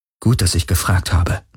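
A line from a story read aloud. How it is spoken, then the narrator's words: Murmuring. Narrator (German): murmelte Kirai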